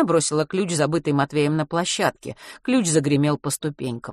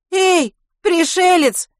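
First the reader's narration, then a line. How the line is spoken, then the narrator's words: Girl shouting. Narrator (Russian): крикнула девчонка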